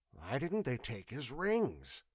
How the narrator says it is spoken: muttered the watchman uneasily

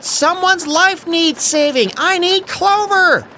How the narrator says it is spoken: Evelyn yelled

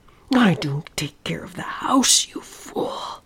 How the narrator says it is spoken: hissed

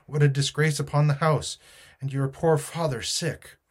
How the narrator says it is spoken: cried my mother

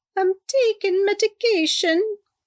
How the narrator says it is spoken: Salty whined

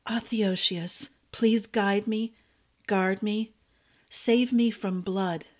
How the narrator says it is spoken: she whispered

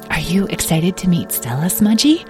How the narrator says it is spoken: whispered

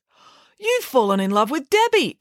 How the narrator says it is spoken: exclaimed Friday

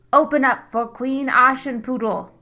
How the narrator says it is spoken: he bellowed through the door

